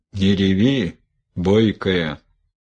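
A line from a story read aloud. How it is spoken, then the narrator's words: Stern old woman. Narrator (Russian): строго сказала бабка Ефимия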